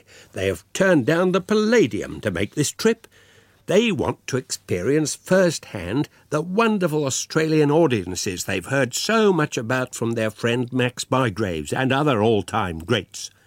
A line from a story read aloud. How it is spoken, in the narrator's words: said firmly